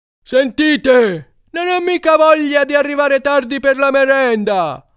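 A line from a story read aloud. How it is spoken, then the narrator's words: Yelled. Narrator (Italian): ha urlato Alcide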